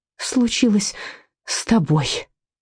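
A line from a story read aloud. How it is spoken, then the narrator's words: Breathed out. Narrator (Russian): выдохнула мать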